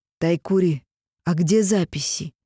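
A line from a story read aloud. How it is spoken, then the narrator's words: Gentle question. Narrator (Russian): мягко спросил Йотун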